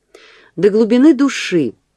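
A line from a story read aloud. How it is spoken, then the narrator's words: Sorrowful exclamation. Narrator (Russian): воскликнул с самым печальным видом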